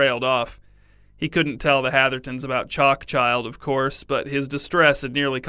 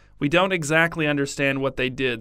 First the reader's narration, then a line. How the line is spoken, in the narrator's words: said Minnie